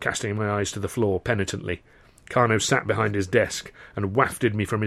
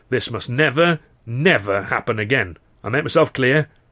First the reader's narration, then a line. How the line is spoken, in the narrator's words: Carno growled